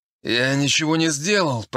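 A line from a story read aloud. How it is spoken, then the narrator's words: Moaning. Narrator (Russian): простонал я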